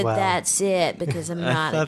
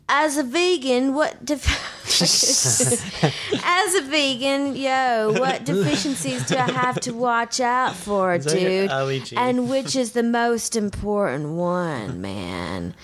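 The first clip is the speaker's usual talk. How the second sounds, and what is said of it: Attempted surfer dude accent, British-Cockney. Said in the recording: “read this in a surfer dude's accent, man? ... It started British, and then it went to Cockney.”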